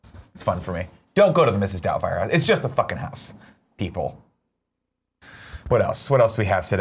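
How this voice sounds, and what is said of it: Usual voice. Nothing is said of it.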